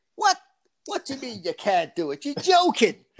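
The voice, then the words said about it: Put-on Irish accent. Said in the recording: “My dad's Irish, by the way. ... That's my Irish accent.”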